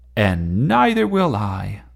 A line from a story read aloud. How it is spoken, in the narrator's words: shouted Gordon